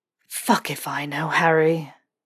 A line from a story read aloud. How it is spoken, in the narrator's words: Snape breathed